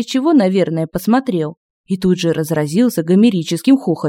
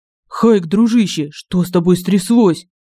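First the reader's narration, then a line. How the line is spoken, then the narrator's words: Frightened question. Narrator (Russian): Испуганно спросил Семен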